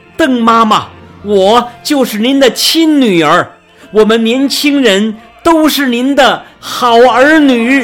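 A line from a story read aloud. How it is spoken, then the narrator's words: Loud calling out. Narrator (Chinese): 他真想大声呼喊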